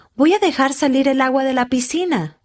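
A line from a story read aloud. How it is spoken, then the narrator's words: Man shouting. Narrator (Spanish): gritó él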